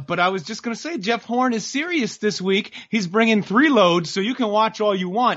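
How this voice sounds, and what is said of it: High-pitched put-on Australian accent. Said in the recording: “Jeff Horn from Wales? Is that what I'm hearing right now? ... It's hard to do the high-pitched and the Aussie thing at the same time.”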